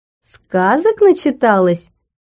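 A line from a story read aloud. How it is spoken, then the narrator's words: Laughing. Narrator (Russian): рассмеялся Смарагд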